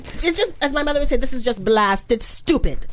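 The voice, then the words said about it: Put-on accent. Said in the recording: “She's gonna break into the accent.”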